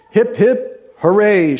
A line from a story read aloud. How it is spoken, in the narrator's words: shouted the mob